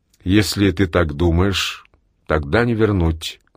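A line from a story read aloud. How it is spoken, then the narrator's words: Plain. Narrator (Russian): говорит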